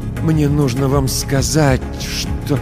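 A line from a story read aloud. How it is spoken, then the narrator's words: Forced out with difficulty. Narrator (Russian): с трудом выдавил я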